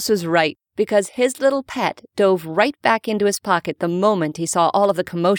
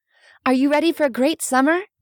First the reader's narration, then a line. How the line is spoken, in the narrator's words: Rebecca asked cheerfully